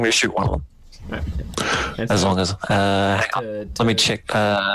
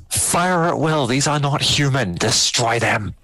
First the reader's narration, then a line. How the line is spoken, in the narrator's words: Logan's going to yell to the others